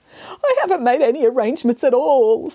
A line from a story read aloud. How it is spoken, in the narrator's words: sobbed the cat